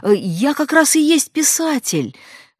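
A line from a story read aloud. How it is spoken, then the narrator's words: Exclaimed. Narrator (Russian): воскликнула я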